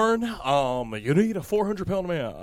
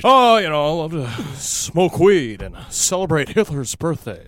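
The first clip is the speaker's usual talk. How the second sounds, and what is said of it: Ted Koppel impression. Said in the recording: “Man, Ted Koppel impersonation. ... I thought it was a great impersonation.”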